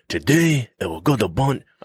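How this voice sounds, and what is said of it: Put-on accent. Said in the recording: “I don't know why I did that accent, first of all. That's the wrong accent.”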